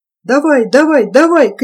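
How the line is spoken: Angry shout from above. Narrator (Russian): кричал сверху сердитый голос

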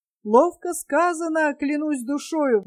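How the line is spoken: King's exclamation. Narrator (Russian): воскликнул царь Галилейский

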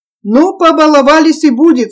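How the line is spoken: Stern. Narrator (Russian): строго сказал Терентий

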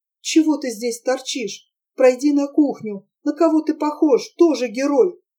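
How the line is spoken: Quiet. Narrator (Russian): тихо сказала

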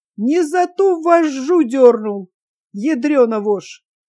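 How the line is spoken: Laughing explanation. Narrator (Russian): Сквозь смех объяснил он

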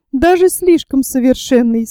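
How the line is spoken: Laughing. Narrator (Russian): смеясь добавила леди Эллен

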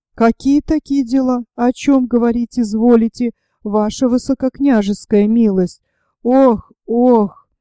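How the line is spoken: Moaning. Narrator (Russian): простонал Остерман

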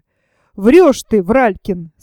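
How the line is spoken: Angry. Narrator (Russian): сказала она сердито

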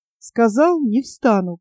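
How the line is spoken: Flat, strange voice. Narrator (Russian): повторил он каким-то чужим, бесстрастным голосом

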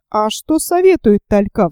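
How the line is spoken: Plain question. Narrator (Russian): спросил Гленарван

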